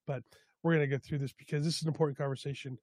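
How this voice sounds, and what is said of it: Slightly sick, funny-sounding voice. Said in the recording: “I'm a little bit under the weather today, so if my voice sounds funny”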